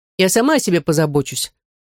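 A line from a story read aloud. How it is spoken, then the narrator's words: Irritated. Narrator (Russian): раздраженно сказала Аделет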